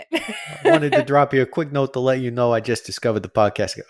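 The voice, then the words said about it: Tough Italian guy accent. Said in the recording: “read this in like a tough Italian guy accent ... Exactly like that. You're much better at it than I am.”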